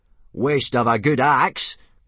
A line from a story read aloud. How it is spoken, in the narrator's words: grunted Gobber